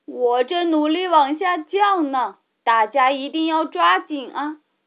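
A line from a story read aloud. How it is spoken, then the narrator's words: Worried, loud. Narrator (Chinese): 查理大叔也很担心啊，他大声说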